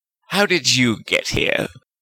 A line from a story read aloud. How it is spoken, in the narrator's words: Dolahov sneered